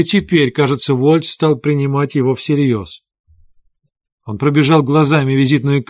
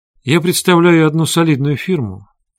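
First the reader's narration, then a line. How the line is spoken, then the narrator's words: Dry, curt. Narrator (Russian): сухо сказал Хейген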